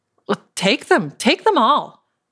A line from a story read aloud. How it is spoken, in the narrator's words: I exclaimed